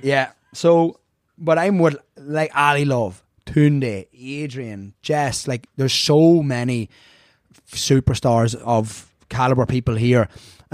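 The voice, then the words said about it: Irish accent. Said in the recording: “pretty inconspicuous here with the red hair and accent ... the Irish in me”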